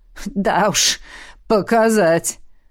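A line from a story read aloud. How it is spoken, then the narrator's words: Group chuckling. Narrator (Russian): хохотнули вейриены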